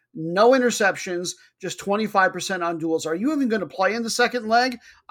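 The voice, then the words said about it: Yelling angrily. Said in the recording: “I'm yelling at you ... I think I scared myself a little bit there”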